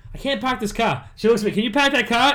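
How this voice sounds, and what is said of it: Imitated Boston accent. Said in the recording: “my friend's going to hear your accent ... From Boston”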